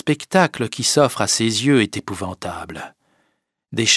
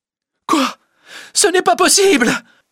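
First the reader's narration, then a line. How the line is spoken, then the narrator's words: Crying out. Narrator (French): s'écrie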